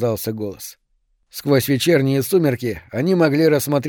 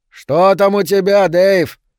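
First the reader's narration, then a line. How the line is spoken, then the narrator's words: Shouted. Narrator (Russian): крикнул Гэри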